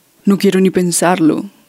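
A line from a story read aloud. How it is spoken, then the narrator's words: Plain. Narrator (Spanish): dijo Jorge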